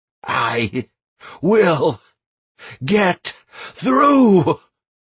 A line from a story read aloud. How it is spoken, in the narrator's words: I was almost shouting